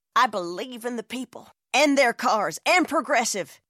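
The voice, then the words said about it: Impression of a politician's voice. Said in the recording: “this is my impression of a politician”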